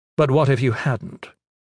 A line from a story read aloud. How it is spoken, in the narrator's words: Gavin asked